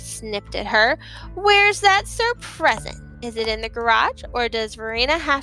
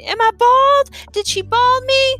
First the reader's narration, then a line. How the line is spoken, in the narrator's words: Galveston was clutching her scalp, screaming